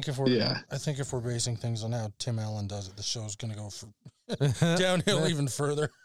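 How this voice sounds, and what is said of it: Usual voice. Nothing is said of it.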